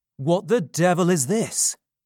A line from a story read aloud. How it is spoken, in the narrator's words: cried the strange man